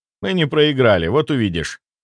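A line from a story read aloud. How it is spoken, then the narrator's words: Calm. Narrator (Russian): спокойно ответил я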